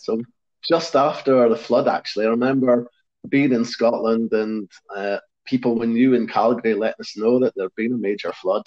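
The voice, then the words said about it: Non-Calgarian accent. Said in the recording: “you and anyone listening can probably pick up on the fact that I don't really have a Calgarian accent.”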